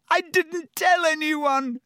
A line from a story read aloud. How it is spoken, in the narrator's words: Hermione shrieked